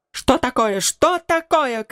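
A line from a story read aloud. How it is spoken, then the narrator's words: Shouting. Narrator (Russian): кричала она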